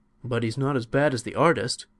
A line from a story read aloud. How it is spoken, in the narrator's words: exclaimed the donkey